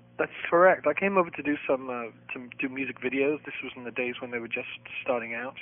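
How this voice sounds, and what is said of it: Liverpool English accent. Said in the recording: “you don't have a Boston accent. You have one from London or Britain or England... From Liverpool, yeah... you sound like the Beatles to me”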